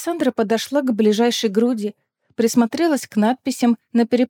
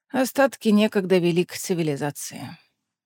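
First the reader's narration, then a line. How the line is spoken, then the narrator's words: Sighing. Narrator (Russian): вздохнул Дарра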